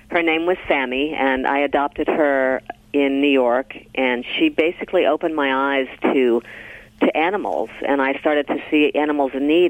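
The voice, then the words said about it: Slightly scratchy, tired voice. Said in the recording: “My voice is a little scratchy... I haven't had much sleep, so I sound a little scratchy today”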